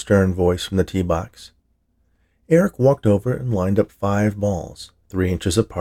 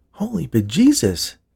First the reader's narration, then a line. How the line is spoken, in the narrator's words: gasped Eric